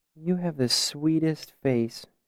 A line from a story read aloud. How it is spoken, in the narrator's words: said dreamily